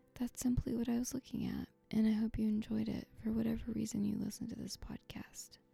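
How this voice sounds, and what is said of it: Strained, worn-out voice. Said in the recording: “my voice is suffering greatly ... using my voice a lot ... conserve my vocal energy”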